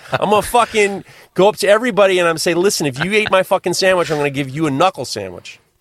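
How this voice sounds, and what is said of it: New York gangster-style voice. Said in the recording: “You sound like a early 80s New York gangster.”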